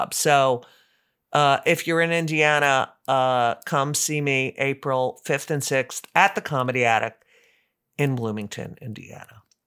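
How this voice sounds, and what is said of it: Tired, exhausted-sounding voice. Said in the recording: “I don't know if you can tell in my voice, I'm a little exhausted from the travel”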